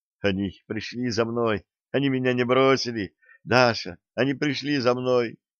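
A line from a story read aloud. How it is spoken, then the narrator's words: Smiling whisper. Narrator (Russian): Улыбаясь, он лишь шептал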